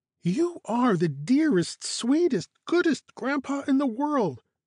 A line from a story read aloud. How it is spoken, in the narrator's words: Caro exclaimed